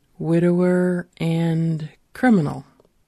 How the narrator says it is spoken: he says slowly

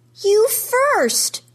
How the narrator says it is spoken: yells

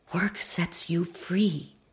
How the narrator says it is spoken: my mother whispered

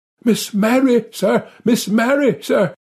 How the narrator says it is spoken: gasped out

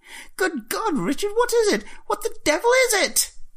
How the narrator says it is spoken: Jeremy shrieking behind him

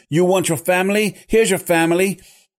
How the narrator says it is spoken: With each subsequent hack, he shouted

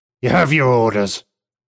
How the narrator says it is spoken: he barks

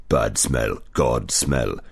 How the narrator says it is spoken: it growled

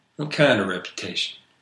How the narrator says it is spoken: He sighed

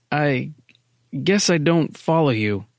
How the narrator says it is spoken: Miller faltered

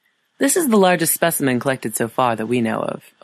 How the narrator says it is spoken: Elise said

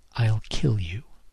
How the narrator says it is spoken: she whispered in my ear

